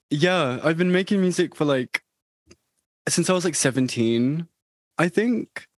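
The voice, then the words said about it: British accent. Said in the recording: “I'm from the UK ... your accent is amazing.”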